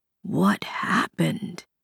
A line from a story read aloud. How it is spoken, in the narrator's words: Softly, he repeated